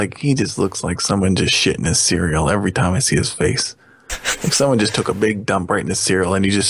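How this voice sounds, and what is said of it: Usual voice. Nothing is said of it.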